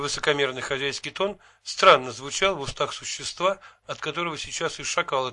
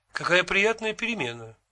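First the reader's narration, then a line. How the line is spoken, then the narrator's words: Cheerful remark. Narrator (Russian): бодро заметил я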